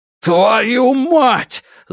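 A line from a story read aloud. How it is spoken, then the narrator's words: Yell drowned by noise. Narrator (Russian): заорал Страйк, но его не слышал никто, кроме Робин, потому что все вокруг кричали и вопили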